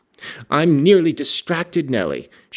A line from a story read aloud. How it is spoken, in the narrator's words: she exclaimed